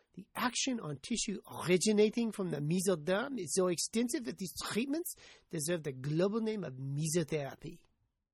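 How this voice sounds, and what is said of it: Poor put-on French accent. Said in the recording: “I probably should be embarrassed to use such a crappy French accent.”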